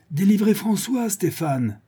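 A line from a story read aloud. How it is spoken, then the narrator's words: Shouted. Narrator (French): cria Don Luis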